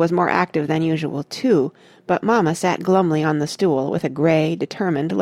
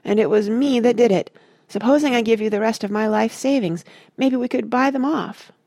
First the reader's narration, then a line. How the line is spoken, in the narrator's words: Tucker moaned